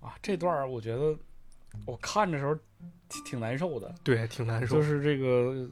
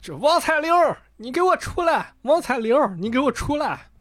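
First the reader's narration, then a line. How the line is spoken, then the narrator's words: Someone shouting. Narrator (Chinese): 这个院里就有人开始喊了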